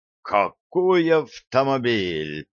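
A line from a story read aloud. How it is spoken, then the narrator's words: Exclaiming. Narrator (Russian): воскликнул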